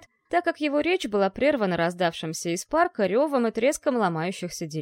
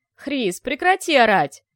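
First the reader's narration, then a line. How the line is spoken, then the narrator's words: Barked. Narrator (Russian): рявкнул советник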